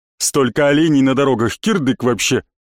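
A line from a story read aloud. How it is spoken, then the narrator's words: Indignant deep voice. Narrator (Russian): возмущенно пробасил Борис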